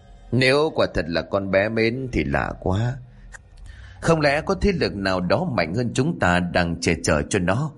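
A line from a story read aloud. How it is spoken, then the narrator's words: Sighing. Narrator (Vietnamese): thở dài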